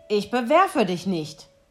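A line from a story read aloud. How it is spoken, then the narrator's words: Grumbling answer. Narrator (German): antwortete der erste und brummte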